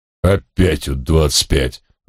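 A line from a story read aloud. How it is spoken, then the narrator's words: Irritated. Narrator (Russian): раздраженно откликнулся отец Пафнутий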